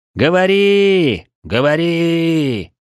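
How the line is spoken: Hopeful crowd shouting. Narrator (Russian): с надеждой кричал народ

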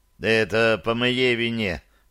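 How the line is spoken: Grumble. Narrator (Russian): проворчал Тибальт Рабе

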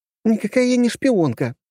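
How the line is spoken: Angry squeal. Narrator (Russian): взвизгнула разозлившаяся Алисия

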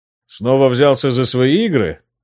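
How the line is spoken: Snorting king. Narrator (Russian): хмыкнул король

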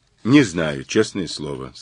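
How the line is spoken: Plain. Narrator (Russian): сказал Мазур

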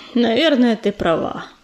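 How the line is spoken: Sigh. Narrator (Russian): вздохнул Ежевика

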